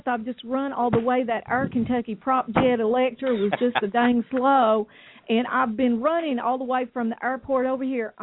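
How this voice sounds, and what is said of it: Breathless, panting speech. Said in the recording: “I'm out of breath.”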